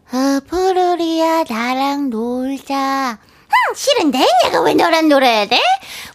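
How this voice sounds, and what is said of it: Cartoon character voices from Pororo. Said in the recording (Korean): “성대모사가 짱이라고요 ... 번호 번호 3종 세트 ... 번호 번호랑 포롤이랑 음? 그리고 너부리”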